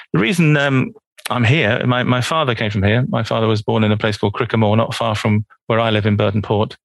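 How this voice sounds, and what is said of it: London English accent. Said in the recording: “Originally, I'm from London, as you can tell from my accent. ... I haven't picked up any Donegal accent. ... but it's a London.”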